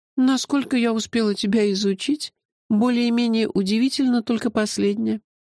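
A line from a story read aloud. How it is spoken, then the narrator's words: Sigh. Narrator (Russian): вздохнула Меломорья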